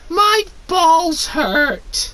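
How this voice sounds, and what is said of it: Whiny voice. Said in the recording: “in a whiny voice”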